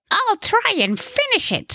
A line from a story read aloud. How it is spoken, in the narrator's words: squealed the good director